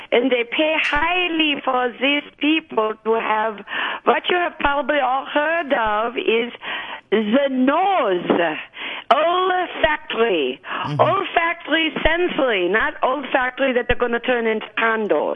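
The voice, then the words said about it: Speaks with a noticeable accent. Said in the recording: “with my accent”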